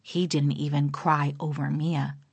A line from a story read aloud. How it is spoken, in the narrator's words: she murmurs